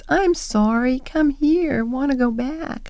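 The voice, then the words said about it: Pitiful little imitated parrot voice. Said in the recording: “says in this pitiful little voice”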